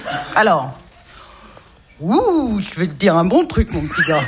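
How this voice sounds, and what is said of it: Imitates another person's voice. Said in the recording (French): “Jean Gabin ... Remarquable imitation. ... Jamais nous ne l'avions entendu imiter comme ça.”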